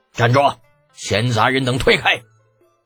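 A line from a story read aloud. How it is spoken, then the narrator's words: Barked command. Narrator (Chinese): 一个声音喝道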